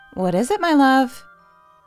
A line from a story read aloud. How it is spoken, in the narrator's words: call sweetly towards the playroom